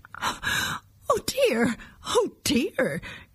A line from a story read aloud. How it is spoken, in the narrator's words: cried the moon